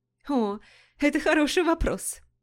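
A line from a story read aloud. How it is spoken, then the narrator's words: Laughing. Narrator (Russian): засмеялась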